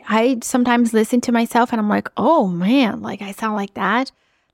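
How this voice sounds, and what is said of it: Speaks with an accent. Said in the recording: “I know you can hear an accent on the other side of this microphone”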